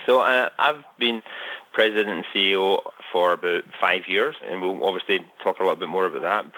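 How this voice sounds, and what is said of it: Scottish accent. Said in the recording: “Obviously, you can tell from my accent, I'm originally from Scotland”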